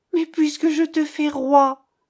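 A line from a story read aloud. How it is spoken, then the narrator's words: Exclaimed. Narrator (French): s'écria-t-elle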